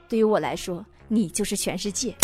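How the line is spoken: Very tender. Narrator (Chinese): 男朋友非常温柔的说

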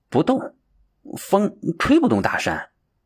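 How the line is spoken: Helpless quiet reply. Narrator (Chinese): 鹰行无可奈何，只好小声的回答道

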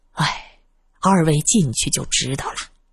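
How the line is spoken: Old steward sighing. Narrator (Chinese): 老管家叹了口气

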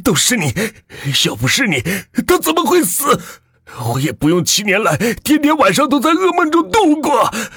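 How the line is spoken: Frantic roar. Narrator (Chinese): 老万已经失去理智了，吼道

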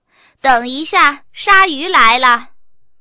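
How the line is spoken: Loud reply. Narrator (Chinese): 妈妈大声的回答说

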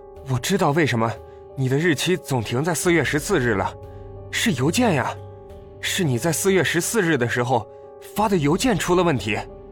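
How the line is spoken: Breathless. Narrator (Chinese): 秦朗气喘吁吁的，说

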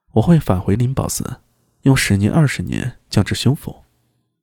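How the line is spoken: Soft. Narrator (Chinese): 我，明空轻声道

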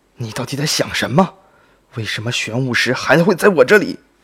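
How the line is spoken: Angry roar. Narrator (Chinese): 布莎怒吼道

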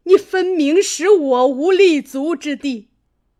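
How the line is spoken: Sneering. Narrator (Chinese): 贾母冷笑道

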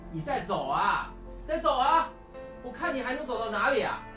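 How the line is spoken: Desperate uncontrolled shouting. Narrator (Chinese): 阿汉 他想到自己再也无处可去，忽然朝着天空失控的大喊大叫

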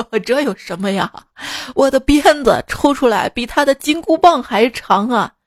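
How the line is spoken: Hearty laughter. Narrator (Chinese): 牛魔王哈哈大笑道

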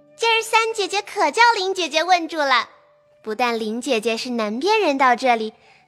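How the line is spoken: Laughing, clapping hands. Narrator (Chinese): 湘云拍着手笑道

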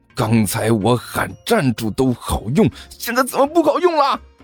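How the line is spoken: Angry roar. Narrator (Chinese): 甘秋恼火的吼道

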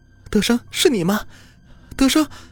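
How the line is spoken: Crying out. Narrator (Chinese): 哭喊道

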